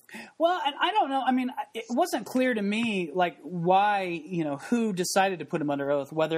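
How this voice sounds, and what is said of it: Usual voice. Nothing is said of it.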